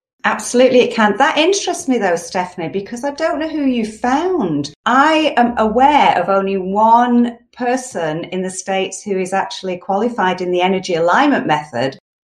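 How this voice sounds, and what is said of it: British accent. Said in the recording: “your lovely accent and know that you're from the UK”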